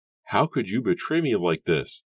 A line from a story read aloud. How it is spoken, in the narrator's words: Edward asked, spitting the words angrily